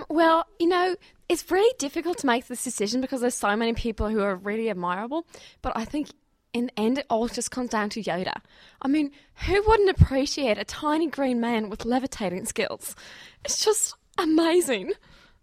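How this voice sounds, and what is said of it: Australian accent. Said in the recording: “I spot an Australian accent.”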